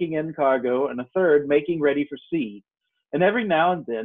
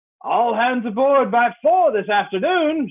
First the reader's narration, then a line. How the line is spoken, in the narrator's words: shouted the squire after him